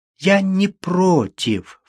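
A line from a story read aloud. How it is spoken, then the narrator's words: Sob. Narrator (Russian): всхлипнула она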